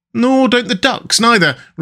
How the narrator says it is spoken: replied the rat cheerfully

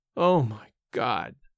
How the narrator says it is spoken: again, in his groaning voice

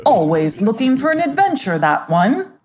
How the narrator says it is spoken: His mother chuckled and said

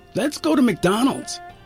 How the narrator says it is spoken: say eagerly

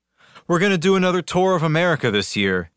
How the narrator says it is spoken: sighed

